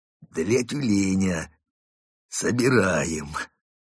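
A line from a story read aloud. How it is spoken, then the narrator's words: Strained, forced out. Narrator (Russian): выдавил из себя одноглазый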